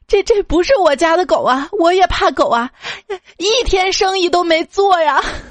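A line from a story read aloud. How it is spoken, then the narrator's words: Near-tearful reply. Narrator (Chinese): 老板略带哭腔的回我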